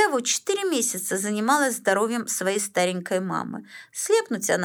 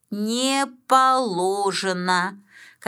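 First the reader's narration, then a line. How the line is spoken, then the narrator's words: Strange unfamiliar voice. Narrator (Russian): Каким-то чужим голосом ответила мне Галина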